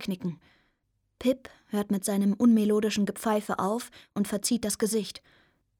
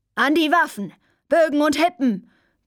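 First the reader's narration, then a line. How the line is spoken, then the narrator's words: Grandmother roaring from above. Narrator (German): brüllt Oma vom Vorderdeck über mir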